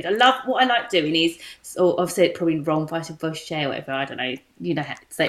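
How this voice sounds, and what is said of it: Essex English accent. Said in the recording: “it's my Essex accent”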